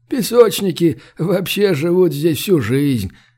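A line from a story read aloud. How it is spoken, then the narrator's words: Chuckling. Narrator (Russian): хохотнул Коста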